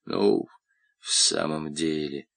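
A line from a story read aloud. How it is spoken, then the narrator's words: Muttered. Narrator (Russian): пробормотал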